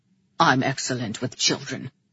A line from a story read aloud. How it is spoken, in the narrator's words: he grumbled